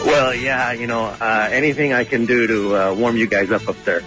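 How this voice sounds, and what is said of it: Usual voice. Nothing is said of it.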